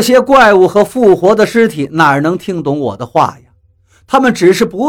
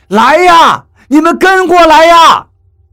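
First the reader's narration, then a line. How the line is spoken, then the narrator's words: Anxious shouting. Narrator (Chinese): 我着急地 大声地叫着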